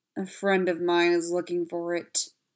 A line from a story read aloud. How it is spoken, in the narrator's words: Spencer growled